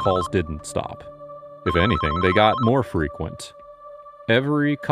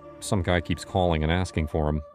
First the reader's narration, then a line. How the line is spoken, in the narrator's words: I mumbled, not really satisfied with that answer